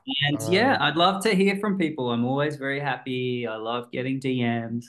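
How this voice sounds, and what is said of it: Australian accent. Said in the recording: “You have a really great voice. ... it's the Australian accent. ... It gives you a character.”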